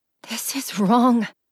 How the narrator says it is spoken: I whispered

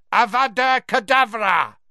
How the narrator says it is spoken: a second voice which screeched the words to the night

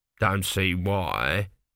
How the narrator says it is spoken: grumbled an elderly priest at the back of the crowd

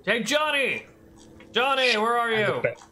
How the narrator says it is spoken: One of them starts yelling

